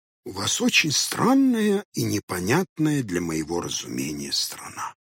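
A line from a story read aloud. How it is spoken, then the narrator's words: Muffled grumble. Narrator (Russian): буркнул Хоттабыч из-под кровати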